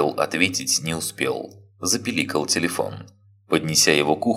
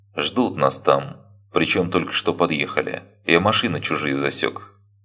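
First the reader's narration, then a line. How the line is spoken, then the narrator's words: Calm. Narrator (Russian): он спокойно произнес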